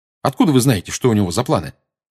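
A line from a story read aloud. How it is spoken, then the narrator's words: Quick question. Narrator (Russian): быстро спросил Гарри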